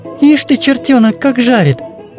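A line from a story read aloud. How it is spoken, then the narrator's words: Tender and proud. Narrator (Russian): Ласково и не без гордости улыбалась Матрёша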